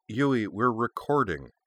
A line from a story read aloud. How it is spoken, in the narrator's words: another voice said, with a note of long-suffering, fond exasperation in it